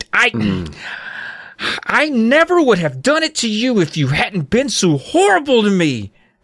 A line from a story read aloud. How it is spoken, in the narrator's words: shrieked